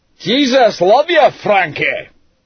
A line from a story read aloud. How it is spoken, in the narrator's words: he bellowed back